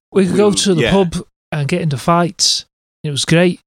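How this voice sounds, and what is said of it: Inconsistent put-on northern English accent. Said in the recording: “My northern accent is all over the place. I've gone from Liverpool to Manchester in no time at all ... You've got no idea how to talk like a proper northerner.”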